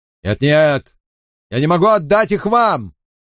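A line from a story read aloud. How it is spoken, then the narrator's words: Shouting. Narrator (Russian): кричал он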